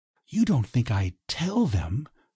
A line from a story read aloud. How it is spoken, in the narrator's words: she whispered